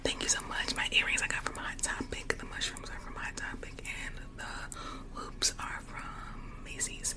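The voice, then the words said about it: Whispering voice. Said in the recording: “if you want me to continue to whisper”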